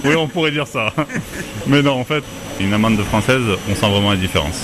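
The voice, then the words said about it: Noticeable regional French accent. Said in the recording (French): “votre accent vous trahit”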